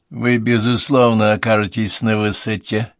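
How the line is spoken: Joking. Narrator (Russian): пошутил Уайльд

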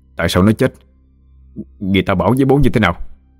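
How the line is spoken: Stammering. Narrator (Vietnamese): Mãi một hồi lâu sau, nó mới lắp bắp

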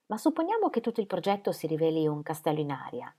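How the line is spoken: Plain. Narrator (Italian): disse Mrs

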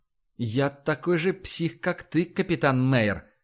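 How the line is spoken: Through clenched teeth. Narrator (Russian): процедил Эндрю

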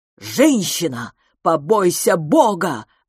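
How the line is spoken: Roar. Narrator (Russian): взревел он

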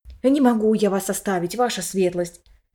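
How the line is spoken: Whisper. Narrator (Russian): вновь зашептал репортер

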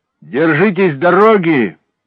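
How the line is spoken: Shouted into ear. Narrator (Russian): прокричал он в ухо Хеллорану

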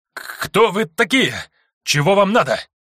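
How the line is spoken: Trembling voice. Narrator (Russian): Дрожащим голосом спросил один из выживших карателей

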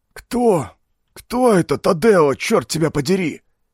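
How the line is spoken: Low frightened wheeze. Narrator (Russian): Низко и испуганно просипел оранжевый пиджак

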